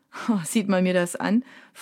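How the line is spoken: Laughing question. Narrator (German): fragt der Typ sie lachend

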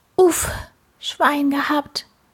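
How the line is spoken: Relieved groan. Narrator (German): Die Fliege stöhnte auf

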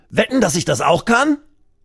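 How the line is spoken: Calling out. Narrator (German): ruft er

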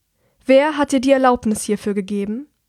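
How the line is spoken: Loud but calm, controlled. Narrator (German): sehr laut spricht, ist ihr Tonfall ruhig und beherrscht

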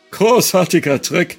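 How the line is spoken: Forced cheerful call. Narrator (German): rief er also forciert fröhlich

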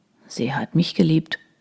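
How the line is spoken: Murmured. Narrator (German): murmelte Troy

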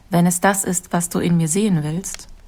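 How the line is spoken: Calm. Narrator (German): antwortete Ida ruhig

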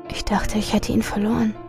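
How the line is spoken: Quiet. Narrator (German): sagte sie leise

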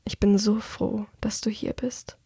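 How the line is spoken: Murmured. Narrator (German): murmelt

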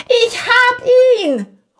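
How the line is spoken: Called. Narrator (German): ruft er

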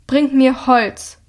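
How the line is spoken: Thundering. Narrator (German): donnert Hilda

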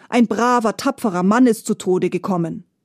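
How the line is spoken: Mother, stern. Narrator (German): sagte die Mutter streng

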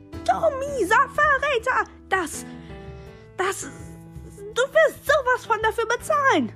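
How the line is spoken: Shouted. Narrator (German): schrie

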